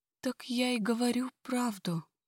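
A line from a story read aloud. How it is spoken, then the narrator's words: Quiet mouse-like squeak. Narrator (Russian): Тихо, словно мышка, пищит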